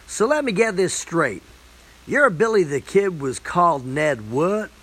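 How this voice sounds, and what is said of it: Broad American accent. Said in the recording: “in her broad American accent”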